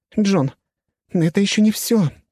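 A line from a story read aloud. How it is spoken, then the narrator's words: Frightened. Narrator (Russian): испуганно сказала Алисия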